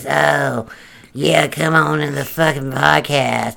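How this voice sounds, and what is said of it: Exaggerated deep voice imitating someone. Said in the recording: “in his stupid fucking deep voice”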